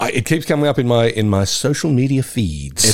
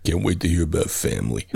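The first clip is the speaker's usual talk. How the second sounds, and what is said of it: Imitates another person's voice. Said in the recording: “That's meant to be my Vin Diesel impersonation. It was probably my Sylvester Stallone impersonation.”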